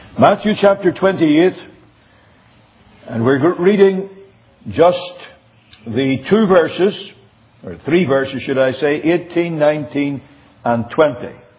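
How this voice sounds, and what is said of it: Northern Irish accent. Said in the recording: “for those of you who don't know what a Northern Irish accent is, this is it.”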